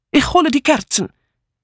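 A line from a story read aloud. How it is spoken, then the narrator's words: Called out. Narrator (German): rief Mitzi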